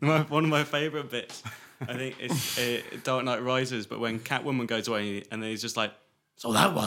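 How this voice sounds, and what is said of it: Usual voice. Nothing is said of it.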